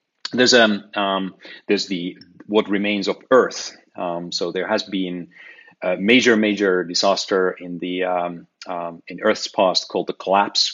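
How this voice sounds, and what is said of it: Voice starting to give out. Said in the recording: “I'm losing my voice a little bit suddenly”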